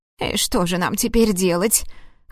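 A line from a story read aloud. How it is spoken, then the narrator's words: Snorting aunt. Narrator (Russian): хмыкнула тетушка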